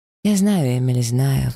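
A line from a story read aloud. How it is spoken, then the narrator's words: Sigh. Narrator (Russian): вздохнула я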